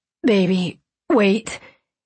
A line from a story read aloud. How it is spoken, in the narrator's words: he gasped